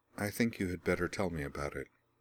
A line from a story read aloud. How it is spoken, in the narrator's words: said quietly